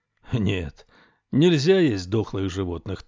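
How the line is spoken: Plain. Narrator (Russian): так он сказал

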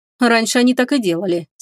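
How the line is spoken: Angry. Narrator (Russian): сердито кивнул владыка

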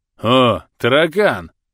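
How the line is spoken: Snide young man. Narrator (Russian): Ехидно выдал накачанный паренек

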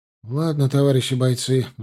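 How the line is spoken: Sighing. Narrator (Russian): вздохнул Пуганьков

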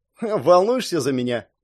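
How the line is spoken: Carefree snort. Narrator (Russian): беспечно хмыкнул Джерри Мэйн

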